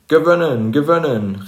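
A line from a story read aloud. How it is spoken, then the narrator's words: Cheerful call, small dragon. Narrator (German): rief der kleine Drache fröhlich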